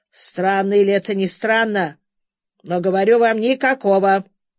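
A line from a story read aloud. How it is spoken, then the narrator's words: Angry grumble. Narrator (Russian): сердито пробурчал незнакомец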